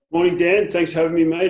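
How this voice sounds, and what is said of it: Australian accent. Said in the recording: “it's so good to hear a nice, normal accent”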